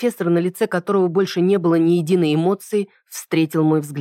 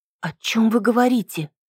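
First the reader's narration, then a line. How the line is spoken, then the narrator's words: Quiet question. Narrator (Russian): тихо спросила я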